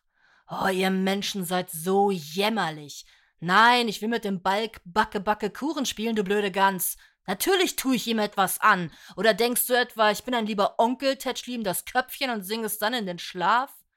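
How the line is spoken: Quiet hiss, suppressed anger. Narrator (German): zischte leise, aber voll unterdrücktem Zorn

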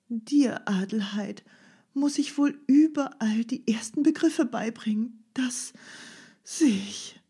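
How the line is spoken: Deep sigh. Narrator (German): fuhr Fräulein Rottenmeier mit tiefem Seufzer fort

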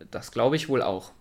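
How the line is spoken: Murmured. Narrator (German): murmelte sie

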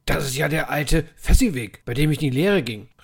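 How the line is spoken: Shouting. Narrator (German): rief Scrooge

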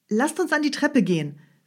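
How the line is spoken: Student calling out. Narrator (German): rief der Student

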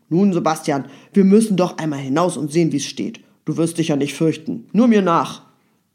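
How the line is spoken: Brave sudden call. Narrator (German): fuhr er auf einmal sehr tapfer hervor und rief

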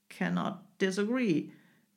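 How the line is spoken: Englishman growling. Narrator (German): knurrte der Engländer

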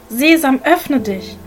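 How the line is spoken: Calling out. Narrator (German): Ali Baba ... rief

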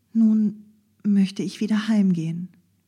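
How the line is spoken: Slightly hesitant. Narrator (German): sie setzte es ein wenig zögernd hinzu

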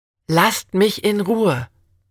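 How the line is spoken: Steady call. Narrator (German): rief sie, überrascht, dass ihre Stimme nicht zitterte

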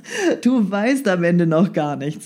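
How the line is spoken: Laughing. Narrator (German): lachte Herr Sesemann

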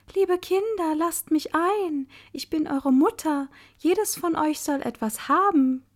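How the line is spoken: Calling in a fine voice. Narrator (German): rief mit feiner Stimme

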